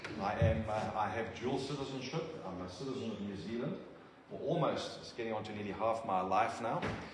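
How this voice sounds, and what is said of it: South African English accent. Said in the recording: “as you've gathered from the accent. My roots are in South Africa.”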